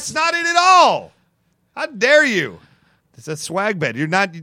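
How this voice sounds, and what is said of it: Usual voice. Nothing is said of it.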